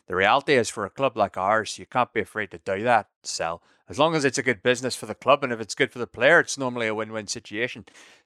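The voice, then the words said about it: Impression with Northern Irish accent. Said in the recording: “Is that Sam Neill in the first season of Peaky Blinders? ... his Northern Irish accent. My Brendan's normally quite good”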